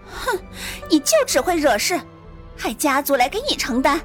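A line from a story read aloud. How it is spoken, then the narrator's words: Angry. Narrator (Chinese): 赵莹双眸含怒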